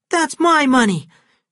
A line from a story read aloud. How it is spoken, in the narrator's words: she cried